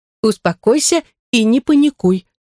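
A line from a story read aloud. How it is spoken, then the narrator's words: Stern. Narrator (Russian): строго сказала Андора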